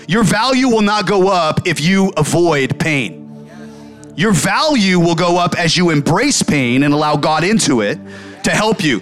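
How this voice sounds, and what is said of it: Yelling, loud emphatic preaching. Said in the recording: “the reason I'm yelling at you”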